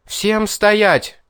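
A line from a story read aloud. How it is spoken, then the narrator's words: Loud exclamation. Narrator (Russian): Она громко воскликнула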